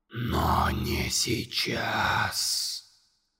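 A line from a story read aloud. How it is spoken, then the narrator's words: Monster's whisper. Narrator (Russian): прошептало чудовище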